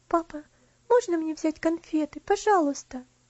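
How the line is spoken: Timid question. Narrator (Russian): она робко спросила

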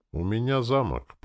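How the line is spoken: Utterly indifferent tone. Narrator (Russian): проговорил я самым равнодушным тоном

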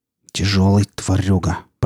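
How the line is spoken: Through gritted teeth. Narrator (Russian): процедил Рамир

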